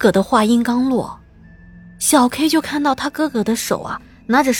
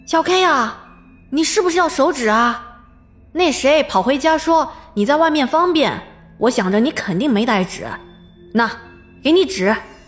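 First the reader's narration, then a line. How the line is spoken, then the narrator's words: Calling out. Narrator (Chinese): 他哥在叫他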